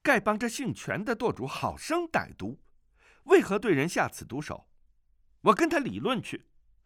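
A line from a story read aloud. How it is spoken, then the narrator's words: Angry. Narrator (Chinese): 段誉怒道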